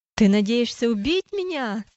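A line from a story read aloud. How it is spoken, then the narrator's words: Shouting. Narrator (Russian): закричал он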